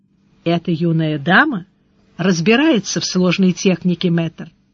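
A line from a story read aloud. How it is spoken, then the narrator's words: Said softly. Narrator (Russian): Тот тихонько сказал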